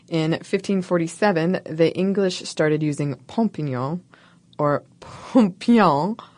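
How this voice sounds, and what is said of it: Mock French accent. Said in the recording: “I'm saying this with a French accent that the English certainly didn't use.”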